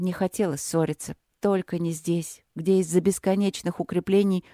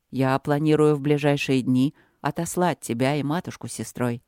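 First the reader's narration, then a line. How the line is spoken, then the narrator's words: Calm statement. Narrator (Russian): спокойно сказал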